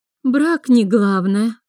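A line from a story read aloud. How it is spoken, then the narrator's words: Tired objection. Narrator (Russian): устало возразила Алекса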